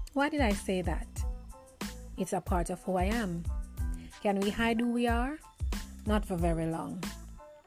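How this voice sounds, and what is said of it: Jamaican accent. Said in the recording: “I am a Jamaican at heart, as you can hear my accent.”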